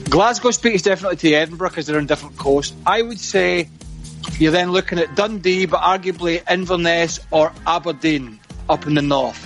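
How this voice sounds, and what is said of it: Refined, softened Scottish accent. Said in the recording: “So this is a refined accent now, which you've got it. I've had to do because I've lived away for like 30 years.”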